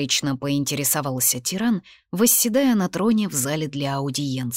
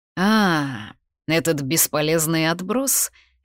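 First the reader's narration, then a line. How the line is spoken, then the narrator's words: Lazy drawl. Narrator (Russian): лениво протянул он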